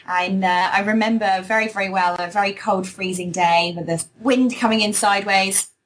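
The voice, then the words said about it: British accent. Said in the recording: “You can obviously tell by my accent, there's a British twang in there”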